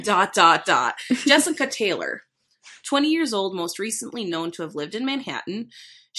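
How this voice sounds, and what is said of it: Strong Minnesotan accent. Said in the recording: “You could not have said that in a more Minnesotan accent”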